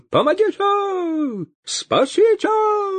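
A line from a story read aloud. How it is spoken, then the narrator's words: Wild distorted yell. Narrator (Russian): Завопил поп не своим голосом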